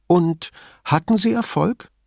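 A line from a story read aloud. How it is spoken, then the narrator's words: Plain question. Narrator (German): fragte Signorina Elettra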